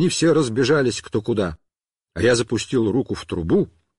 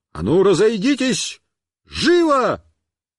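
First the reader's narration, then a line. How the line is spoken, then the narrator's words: Shouted. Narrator (Russian): Я им крикнул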